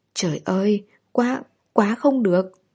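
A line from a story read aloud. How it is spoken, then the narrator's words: Stammering. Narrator (Vietnamese): lắp bắp nói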